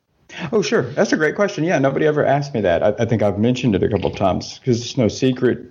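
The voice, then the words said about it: American accent. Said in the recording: “with your accent, you are from the US”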